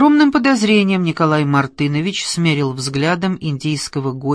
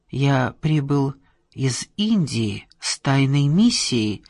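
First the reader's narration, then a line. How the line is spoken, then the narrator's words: Plain. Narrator (Russian): сказал Бодхидхарма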